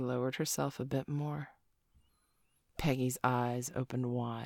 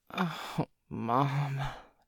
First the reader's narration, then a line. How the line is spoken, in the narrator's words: Joey groaned